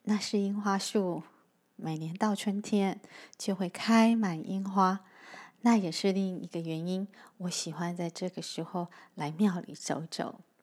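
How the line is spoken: Marveling. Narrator (Chinese): 小光惊叹着

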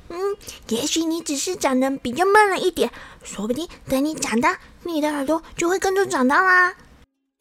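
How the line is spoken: Gentle, comforting. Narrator (Chinese): 甜甜的小兔子，它总是安慰他说

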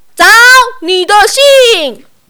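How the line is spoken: Loud bellow. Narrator (Chinese): 邮差先生扯着嗓门大吼

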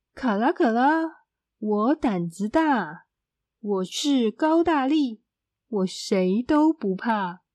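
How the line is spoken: Loud chanting. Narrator (Chinese): 你就大声念

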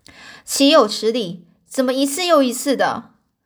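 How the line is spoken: Angry roaring. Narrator (Chinese): 亨利先生他整个满面怒容啊，就是很生气的样子，大声的咆哮着

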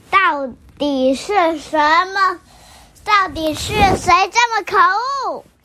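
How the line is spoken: Exasperated roar. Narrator (Chinese): 他实在烦死了，忍不住大吼

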